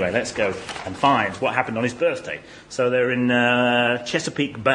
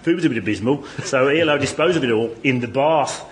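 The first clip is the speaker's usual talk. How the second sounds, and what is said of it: Put-on Birmingham accent. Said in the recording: “I should read it in a Birmingham accent.”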